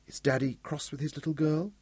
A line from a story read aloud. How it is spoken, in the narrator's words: Bonnie whispered